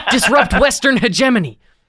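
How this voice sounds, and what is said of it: Excited impression, sports-fan cheering. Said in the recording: “do a legit fucking impression of something I actually heard him say. And getting excited like he's watching a fucking sporting event going, yeah.”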